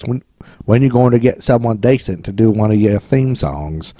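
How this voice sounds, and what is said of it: Bad put-on English accent. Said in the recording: “That's a terrible English accent... that was awful... that was terrible... That sounds British.”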